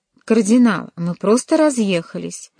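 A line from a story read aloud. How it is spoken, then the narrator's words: Cheerful. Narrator (Russian): весело ответил Джованни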